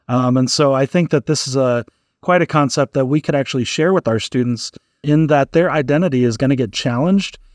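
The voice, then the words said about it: American English accent. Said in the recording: “speaking American English”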